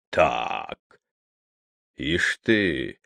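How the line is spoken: Muttering. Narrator (Russian): пробормотал Щукин

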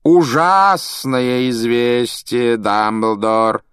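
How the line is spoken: Theatrical drawl. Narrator (Russian): театральным голосом протянул Малфой

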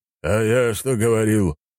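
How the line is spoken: Booming. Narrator (Russian): прогремел Сергей Михайлович

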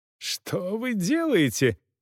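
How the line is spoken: Shouting. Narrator (Russian): кричал неизвестный господин

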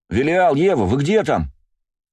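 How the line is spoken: Shouting from afar. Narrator (Russian): закричал Бельфигор с моста

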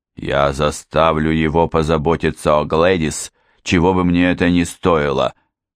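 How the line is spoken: Stubborn, through teeth. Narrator (Russian): упрямо процедил Бейкер

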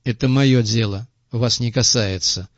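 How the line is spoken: Dejected, gloomy. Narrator (Russian): уныло произнес Крупица

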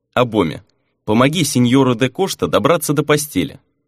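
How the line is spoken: Cold command. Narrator (Russian): холодно приказал Фернан

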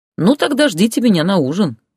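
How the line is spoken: Cheerful reply. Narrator (Russian): весело ответил Ярослав

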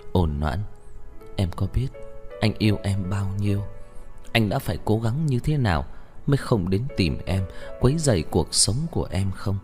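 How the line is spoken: Very gentle question. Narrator (Vietnamese): Một câu nghi vấn rất nhẹ nhàng

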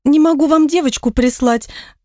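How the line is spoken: Whining. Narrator (Russian): продолжал скулить женский голос

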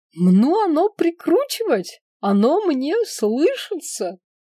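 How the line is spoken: Joyful squealing. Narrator (Russian): радостно повизгивала переселенка

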